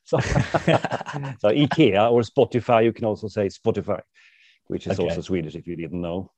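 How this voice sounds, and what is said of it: English with a Swedish accent. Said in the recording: “This is English with a Swedish accent. It sounds a little bit silly”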